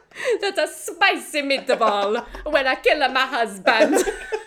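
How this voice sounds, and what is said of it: Exaggerated mock Italian accent. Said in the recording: “Her accent is amazing ... she's not good at Italian ... we did a very good impression there ... we did a very true to character impression”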